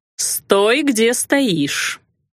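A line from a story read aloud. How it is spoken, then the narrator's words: Through clenched teeth. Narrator (Russian): процедила кузина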